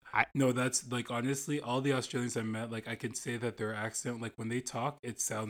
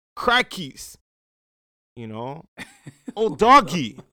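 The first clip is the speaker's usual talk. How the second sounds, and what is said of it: Put-on Australian accent. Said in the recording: “people from Australia, their accent as well”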